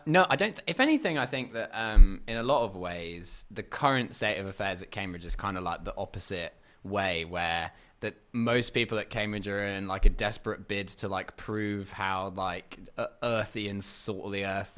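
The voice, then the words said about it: Slightly posh upper-class English accent. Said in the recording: “I wouldn't say neutral. You're like slightly upper. Yeah. A little bit posh.”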